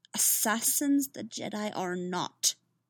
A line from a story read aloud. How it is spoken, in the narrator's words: Yoda said sharply